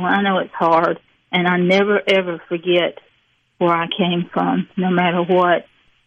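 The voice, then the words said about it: Mississippi Southern accent. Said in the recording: “people have always made fun of me out of Mississippi ... you'll lose that accent”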